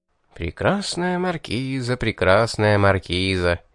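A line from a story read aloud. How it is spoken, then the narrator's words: Unrestrained purring. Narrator (Russian): Не сдержавшись, промурлыкал я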